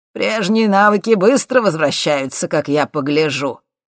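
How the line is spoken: Delighted exclamation. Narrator (Russian): восторженно воскликнул он

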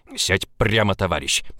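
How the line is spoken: Growled command. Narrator (Russian): прорычал Влад

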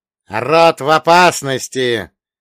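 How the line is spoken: Booming, sharp. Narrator (Russian): вновь прогремел голос деда, как острый клинок

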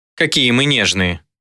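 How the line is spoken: Grumbling, softer, less irritated. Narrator (Russian): Ее голос звучал все так же ворчливо, но уже гораздо менее резко и раздраженно

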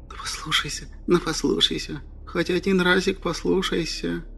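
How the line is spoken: Gnome whispering in ear. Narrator (Russian): зашептал ему на ухо гном

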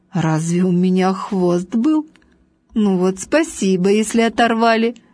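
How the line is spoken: Laughing. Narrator (Russian): Важный засмеялся

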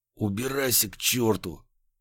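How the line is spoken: Restrained hoarse wheeze. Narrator (Russian): просипел я, с трудом сдерживаясь, чтобы в который раз за эту неделю опять не сорваться на крик

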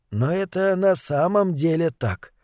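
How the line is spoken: Gentle insistence. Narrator (Russian): продолжал мягко настаивать главный психиатр

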